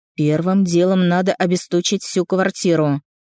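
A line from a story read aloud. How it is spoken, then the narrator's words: Stern. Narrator (Russian): строго сказал Степа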